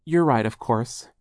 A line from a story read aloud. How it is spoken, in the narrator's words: Charles said softly